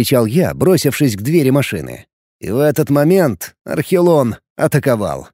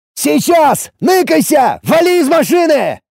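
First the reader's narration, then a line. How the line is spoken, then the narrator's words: Shout. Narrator (Russian): крикнул я Роберту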